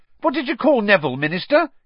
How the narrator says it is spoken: he said excitedly

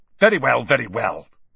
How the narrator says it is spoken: Snape snapped

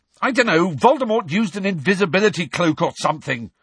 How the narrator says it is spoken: Harry shouted

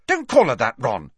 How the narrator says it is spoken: snapped Ginny

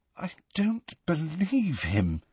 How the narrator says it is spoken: said Hermione in a very unsteady voice

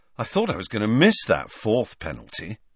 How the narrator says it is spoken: Ron was saying happily

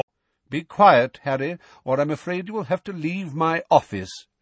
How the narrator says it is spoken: said Dumbledore calmly

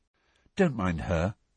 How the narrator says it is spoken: Cho muttered

